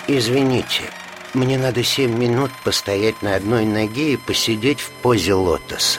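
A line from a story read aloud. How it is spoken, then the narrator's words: Polite, quiet, firm. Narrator (Russian): Вицин как всегда вежливо и тихо, но очень твердо заявлял коллегам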